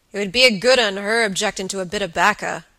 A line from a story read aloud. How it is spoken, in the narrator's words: growled Mr